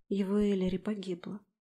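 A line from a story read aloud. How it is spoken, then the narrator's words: Quiet. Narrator (Russian): сказала я тихо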